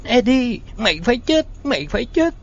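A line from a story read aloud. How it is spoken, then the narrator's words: Shriek. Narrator (Vietnamese): rít lên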